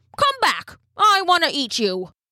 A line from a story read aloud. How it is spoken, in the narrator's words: he called out